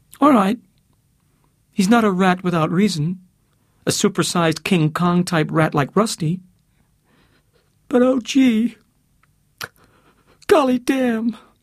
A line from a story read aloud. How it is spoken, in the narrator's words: she said, like a bawling baby